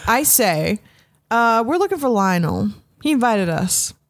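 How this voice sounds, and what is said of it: Character voice with slight drawl. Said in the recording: “Why am I speaking with a slight drawl?”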